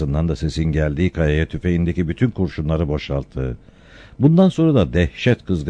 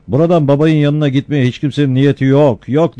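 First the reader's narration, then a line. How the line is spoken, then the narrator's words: Shouted. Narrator (Turkish): diye bağırdı Ferhat Hoca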